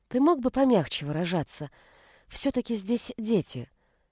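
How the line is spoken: Strained gentle voice. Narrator (Russian): сказала Анита как можно более нежным голосом, хотя в этот раз нежный голос дался ей с трудом

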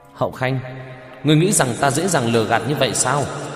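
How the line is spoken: Laughing shout. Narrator (Vietnamese): Đông Dài Mình cười một tiếng quát lên

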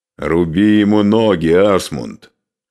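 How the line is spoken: Loud. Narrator (Russian): громко сказал Скарпи

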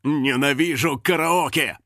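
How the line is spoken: Growled. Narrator (Russian): прорычал он

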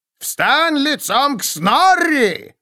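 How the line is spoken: Roaring. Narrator (Russian): проревел Снорри

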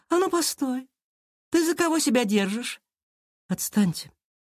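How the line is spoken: Calm but firm. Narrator (Russian): Спокойно, но твердо ответила Кира

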